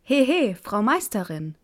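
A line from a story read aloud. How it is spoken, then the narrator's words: Called out. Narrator (German): rief er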